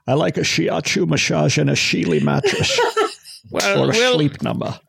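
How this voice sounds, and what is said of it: Strange Scottish accent, James Bond. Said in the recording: “Mr. Bond ... your strange Scottish accent”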